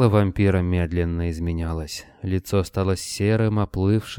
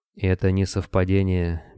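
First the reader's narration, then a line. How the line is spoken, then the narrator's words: Gentle man's voice. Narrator (Russian): мягко сказал человек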